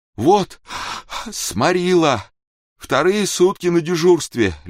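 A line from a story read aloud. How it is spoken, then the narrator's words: Babbling through fake yawns. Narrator (Russian): лепетал Владимирец, старательно зевая и потягиваясь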